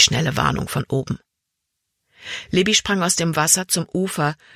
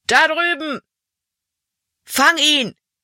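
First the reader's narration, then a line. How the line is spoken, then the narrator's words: Called out. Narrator (German): rief ein anderer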